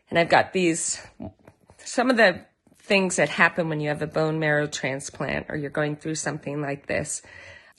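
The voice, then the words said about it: Partly lost, weak voice. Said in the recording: “I've kind of lost my voice a little bit”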